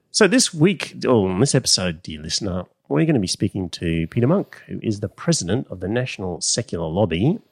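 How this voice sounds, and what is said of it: Slightly nasal voice. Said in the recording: “I've had a cold all week, so if my voice sounds a little bit nasally”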